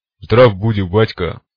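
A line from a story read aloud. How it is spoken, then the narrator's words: Deep bass voice. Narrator (Russian): пробасил он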